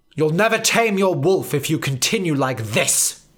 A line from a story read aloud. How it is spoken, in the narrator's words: snapped Professor Banner in his head